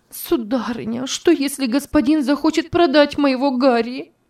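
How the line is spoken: Sobbing. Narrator (Russian): несчастная зарыдала

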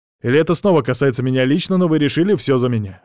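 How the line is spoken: Snort. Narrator (Russian): хмыкнул я

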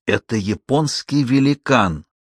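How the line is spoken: Breathed into ear. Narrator (Russian): выдохнул Стеббинс в ухо Кармоди

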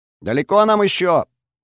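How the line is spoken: Shouting over the wind. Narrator (Russian): прокричала мне в самое ухо Олеся, стараясь превзойти ветер

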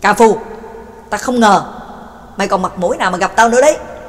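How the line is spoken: Angry roar. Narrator (Vietnamese): McKin hít sâu một hơi, giận dữ gầm lên

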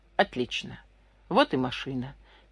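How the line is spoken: Quiet exclamation. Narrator (Russian): тихо воскликнул Комаров

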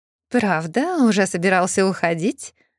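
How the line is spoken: Snide female question. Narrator (Russian): ехидно уточняет у Турбина его партнерша по сомнительному делу

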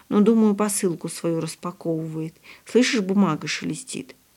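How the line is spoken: Quiet reply. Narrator (Russian): так же тихо ответила Яночка

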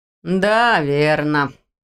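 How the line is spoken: Drawn out. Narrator (Russian): протянул Ваня

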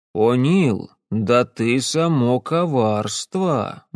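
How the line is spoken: Said grimly. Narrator (Russian): мрачно проговорил

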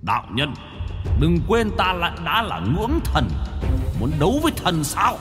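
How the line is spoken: Harsh gritted voice. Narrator (Vietnamese): Trùng hổ gằn giọng

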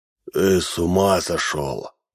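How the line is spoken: Creaky voice. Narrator (Russian): проскрипел Минц

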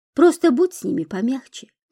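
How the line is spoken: Sighing. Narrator (Russian): вздохнул Альбин

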